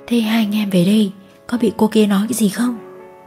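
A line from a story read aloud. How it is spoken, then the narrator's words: Hesitant speech. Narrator (Vietnamese): Nam ngập ngừng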